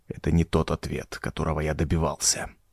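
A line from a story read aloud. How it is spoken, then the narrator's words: Whisper. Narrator (Russian): прошептал Хэс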